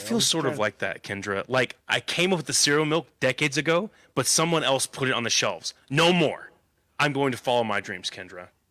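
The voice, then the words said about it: Imitates another person's voice. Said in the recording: “best Jaime impression”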